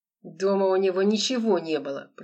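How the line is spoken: Through gritted teeth. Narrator (Russian): процедил черный человек

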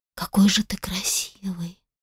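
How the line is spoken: Whispered. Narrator (Russian): прошептала Сара

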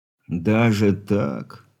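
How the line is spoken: Disappointed drawl. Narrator (Russian): разочарованно протянул капитан

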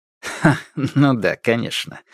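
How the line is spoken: Laughing. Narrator (Russian): рассмеялся Василий Оттович

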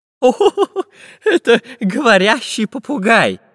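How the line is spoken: Laughing professor. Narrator (Russian): засмеялся профессор Пыхтелкин

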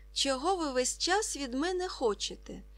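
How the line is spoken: Exclaiming. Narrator (Ukrainian): вигукнув Ка

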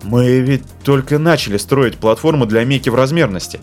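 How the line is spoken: Confused speech. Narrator (Russian): растерянно сказал он

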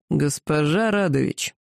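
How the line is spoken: Hoarse voice. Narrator (Russian): Дракон хрипло произнес

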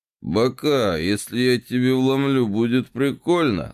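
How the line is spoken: Strained hoarse wheeze. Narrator (Russian): сдавленно хрипит рокер

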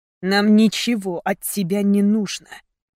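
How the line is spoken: Venomous interruption. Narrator (Russian): перебил ее Мейсон ядовитым тоном

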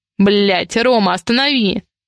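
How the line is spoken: Growl. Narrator (Russian): рыкнул я

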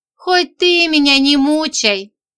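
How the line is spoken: Tearful plea. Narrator (Russian): со слезой попросила я

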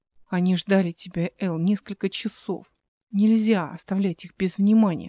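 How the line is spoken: Whisper. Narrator (Russian): шепнул

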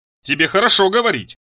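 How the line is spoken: Shouting. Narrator (Russian): закричал Ицхак

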